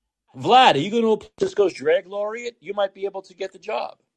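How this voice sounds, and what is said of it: Usual voice. Nothing is said of it.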